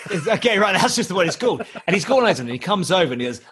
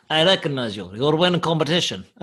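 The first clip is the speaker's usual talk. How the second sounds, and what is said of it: Imitates another person's accent. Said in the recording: “that is an exact accent ... You sound exactly like me”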